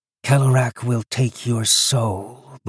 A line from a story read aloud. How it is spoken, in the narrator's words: the woman growls